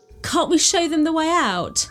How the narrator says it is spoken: cried

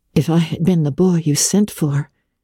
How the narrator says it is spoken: said Anne wistfully

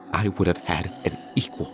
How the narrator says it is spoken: she said softly, on the verge of tears

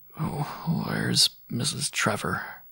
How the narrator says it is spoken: I asked feebly

